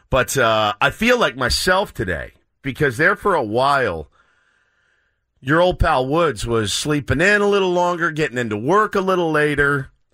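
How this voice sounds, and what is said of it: Worn-out, strained voice. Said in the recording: “My voice is cashed. I mean, I got nothing left. I got nothing left.”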